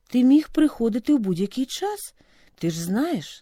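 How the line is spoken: Plain. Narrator (Ukrainian): сказав батько

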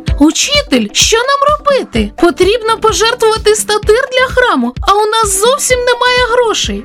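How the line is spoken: Exclamation. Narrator (Ukrainian): вигукнув Петро

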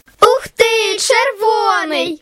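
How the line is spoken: Children shouting joyfully. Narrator (Ukrainian): радісно закричали діти

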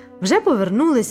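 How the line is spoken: Exclaiming. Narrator (Ukrainian): вигукнув Луїс

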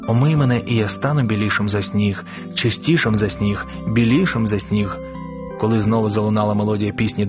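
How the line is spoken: Quiet prayerful whisper. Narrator (Ukrainian): Він тихо шепотів слова молитви

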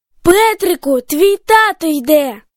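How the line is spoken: Exclaimed. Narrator (Ukrainian): вигукнула Катя

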